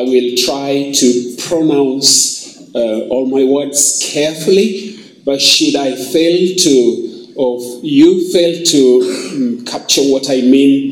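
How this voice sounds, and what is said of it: Kenyan English accent. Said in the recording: “please do receive greetings from Kenya ... that accent is not uh, Zambian”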